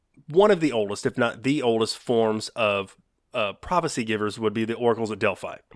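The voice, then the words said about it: Southern US accent. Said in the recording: “That's my southern accent coming through.”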